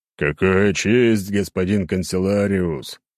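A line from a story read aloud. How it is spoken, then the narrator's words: Deep bass, grinning. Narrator (Russian): пробасил он, широко скаля желтые зубы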